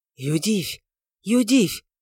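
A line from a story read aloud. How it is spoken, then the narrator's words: Whispered. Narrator (Russian): прошептал он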